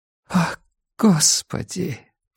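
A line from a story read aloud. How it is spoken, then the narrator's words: Whispered. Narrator (Russian): прошептала Эллен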